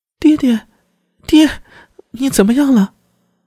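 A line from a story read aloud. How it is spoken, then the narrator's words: Shrill crying scream. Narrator (Chinese): 贺兰敏之尖锐的哭喊声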